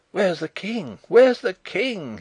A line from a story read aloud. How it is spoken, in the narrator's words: he cried